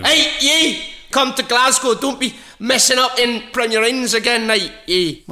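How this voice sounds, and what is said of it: Put-on Glasgow accent. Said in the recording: “The next venue, oh, heaven help us, we're going to is Glasgow ... What all these accents”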